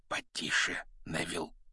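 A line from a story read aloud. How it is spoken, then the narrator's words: Whisper. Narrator (Russian): шепнул Рон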